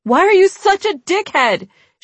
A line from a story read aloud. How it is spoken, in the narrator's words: she yelled